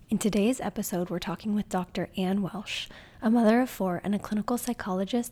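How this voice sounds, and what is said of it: Strained voice recovering from singing. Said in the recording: “my voice is recovering from a night of singing my heart out to Taylor Swift”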